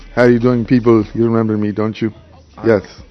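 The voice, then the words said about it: Put-on accent, inconsistent. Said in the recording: “what's up with the whole accent? ... You start off with the accent, but eventually, as the show goes on, ... It's like it's not even consistent. It's like it's here and it's gone.”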